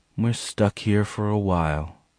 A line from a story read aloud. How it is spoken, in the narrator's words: she said quietly